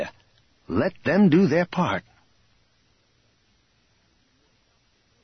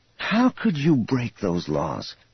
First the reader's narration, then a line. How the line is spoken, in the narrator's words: Thraken sighed wearily